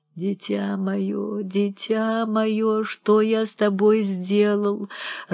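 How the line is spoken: Old man sobbing like child. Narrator (Russian): рыдал, как ребенок старик

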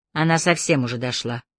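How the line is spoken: Grumbling. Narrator (Russian): проворчала художница

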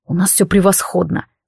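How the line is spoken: Through gritted teeth. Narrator (Russian): сквозь зубы процедил Азриэл

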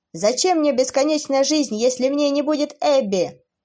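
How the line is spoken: Desperate young man shouting. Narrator (Russian): С отчаянием закричал юноша

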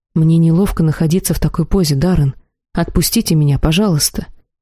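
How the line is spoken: Quiet confused confession. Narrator (Russian): Не зная, что и думать далее, не понимая его в принципе, я тихо призналась

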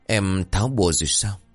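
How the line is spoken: Soft question. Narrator (Vietnamese): Anh khẽ hỏi

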